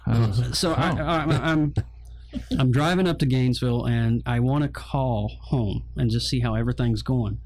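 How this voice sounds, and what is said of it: Slight hillbilly twang. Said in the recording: “my little bit of the hillbilly accent there. You can hear it every once in a while. It comes out every fifth to sixth word. You can hear it, a little twang.”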